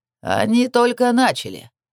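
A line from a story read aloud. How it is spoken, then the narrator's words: Cheerful announcement. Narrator (Russian): весело объявил Адрамелек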